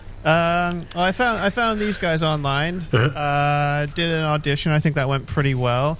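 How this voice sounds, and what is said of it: Slight American accent. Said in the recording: “a bit of an American accent ... I picked up the American accent on the way”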